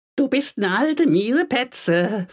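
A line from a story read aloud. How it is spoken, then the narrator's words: Gleeful gloating. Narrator (German): frohlockte Gisela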